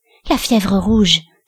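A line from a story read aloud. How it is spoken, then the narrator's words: Breathed whisper. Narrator (French): souffla Aïfa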